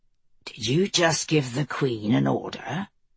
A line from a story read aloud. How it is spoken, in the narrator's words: Mace asked, his voice deadly soft